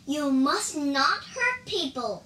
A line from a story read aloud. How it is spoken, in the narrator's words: cried the Tang monk